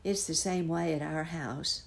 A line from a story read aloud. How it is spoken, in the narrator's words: sighed the first boy